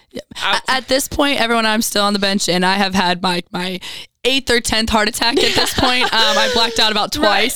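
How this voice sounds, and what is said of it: Hoarse, worn-out voice. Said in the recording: “you can hear today that my voice is gone because of the screaming”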